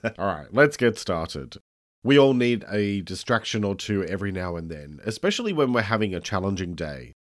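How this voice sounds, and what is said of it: Croaky voice. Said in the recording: “my voice is a bit croaky ... I do have a head cold ... sounding like a teenager with a breaking voice”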